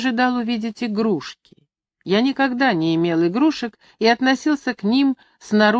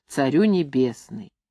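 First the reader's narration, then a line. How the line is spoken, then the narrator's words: Soft singing. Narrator (Russian): напевая тихонько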